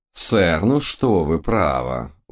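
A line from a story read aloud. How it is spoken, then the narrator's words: Reproachful drawl. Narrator (Russian): укоризненно протянул мой учитель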